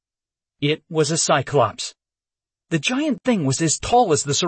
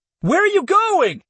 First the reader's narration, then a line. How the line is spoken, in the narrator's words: I shouted after him